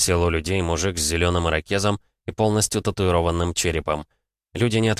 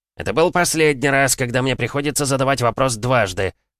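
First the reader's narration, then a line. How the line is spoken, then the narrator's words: Barked. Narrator (Russian): рявкнул он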